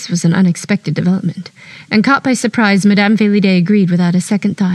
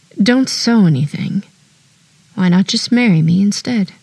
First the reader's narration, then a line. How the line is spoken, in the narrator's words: smiled, tenderly, courageously, merrily, and a bit ironically